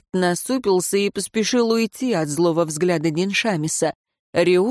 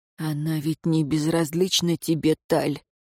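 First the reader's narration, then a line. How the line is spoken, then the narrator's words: Keeper whispering. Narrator (Russian): прошептал смотритель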